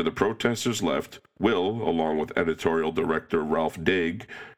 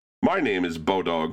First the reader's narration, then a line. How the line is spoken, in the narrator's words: the man said